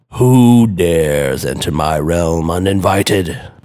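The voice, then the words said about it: Deep booming voice. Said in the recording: “boomed a deep voice.”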